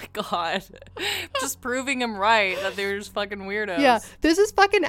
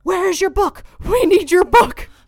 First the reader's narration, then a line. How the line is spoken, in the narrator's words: Blymire began hounding Nelson, yelling